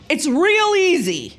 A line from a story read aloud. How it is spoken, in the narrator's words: Pavlich barked